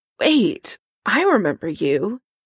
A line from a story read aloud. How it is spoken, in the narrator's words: Karen croaks